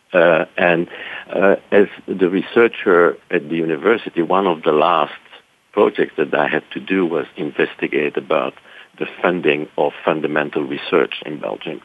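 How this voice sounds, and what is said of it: Belgian accent. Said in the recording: “as you can hear, my, my accent is not really from Texas, so I'm originally from Brussels, Belgium.”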